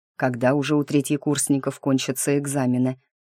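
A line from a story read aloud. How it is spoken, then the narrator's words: Grumbled. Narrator (Russian): пробурчал Ник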